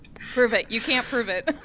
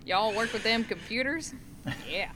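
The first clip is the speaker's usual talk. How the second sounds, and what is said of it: Put-on Oklahoma Southern accent. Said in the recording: “I could go full Okie on you.”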